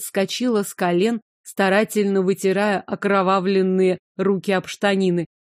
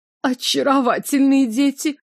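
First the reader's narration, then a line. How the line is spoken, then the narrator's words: Forced, strained pleasantness. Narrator (Russian): выдавила улыбку госпожа Зельман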